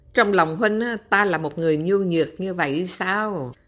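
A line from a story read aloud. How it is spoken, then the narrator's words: Slightly joking tone. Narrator (Vietnamese): Lý Khắc nói với giọng hơi pha trò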